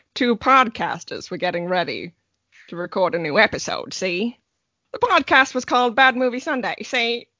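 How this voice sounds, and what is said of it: Old black-and-white murder mystery accent. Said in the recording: “Not the best accent, because the podcasters don't know how to do that murder mystery black and white sort of accent ... I'm going to transition into my normal voice”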